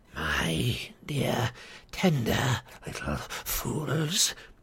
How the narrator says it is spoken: hissed Grishnak

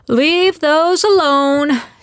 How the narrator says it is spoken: she bellowed

